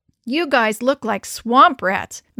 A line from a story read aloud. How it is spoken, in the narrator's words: Mindy laughed